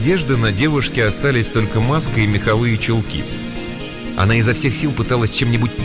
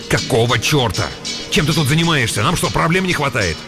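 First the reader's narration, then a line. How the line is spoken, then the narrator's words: Snapping retort. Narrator (Russian): Выдр огрызнулся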